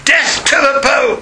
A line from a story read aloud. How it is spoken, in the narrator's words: the remaining 10th cried